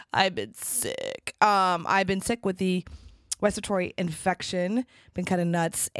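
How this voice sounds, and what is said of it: Raspy, hoarse voice. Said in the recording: “I have a really raspy voice today. I have been sick.”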